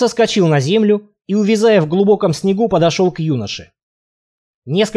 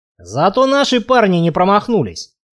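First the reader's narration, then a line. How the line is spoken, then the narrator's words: Dwarf grumbling. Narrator (Russian): пробурчал гном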